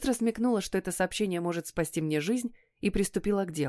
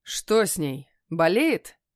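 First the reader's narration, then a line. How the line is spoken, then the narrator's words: Rough question. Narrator (Russian): грубо спросил он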